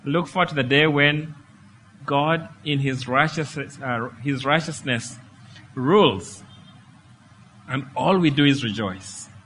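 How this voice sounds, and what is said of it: Strained, hoarse voice giving out. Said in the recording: “losing my voice”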